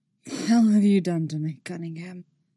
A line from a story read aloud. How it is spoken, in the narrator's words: rasps, husky voice